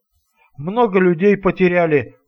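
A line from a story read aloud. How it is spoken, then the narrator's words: Anxious question. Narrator (Russian): взволнованно спросил Вова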